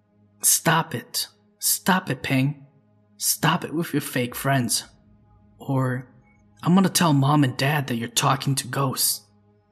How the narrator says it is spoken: I mumbled

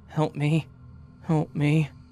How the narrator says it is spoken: As the moaning continues, saying

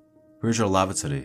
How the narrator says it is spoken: the woman asked, her tone urgent

